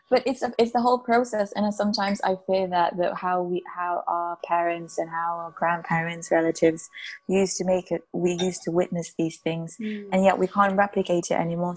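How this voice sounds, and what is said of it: Slurred, tired late-night speech. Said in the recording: “it's 10 p.m. and this is why I'm slurring my speech”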